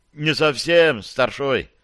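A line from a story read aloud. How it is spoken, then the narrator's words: Sighing. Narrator (Russian): снова вздохнул Алеша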